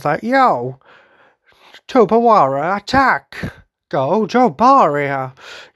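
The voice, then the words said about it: Weird cartoon villain voice. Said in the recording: “He's got quite a cool voice. ... it just had this really weird voice.”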